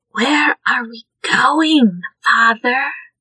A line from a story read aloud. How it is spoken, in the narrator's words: Ayuan whispered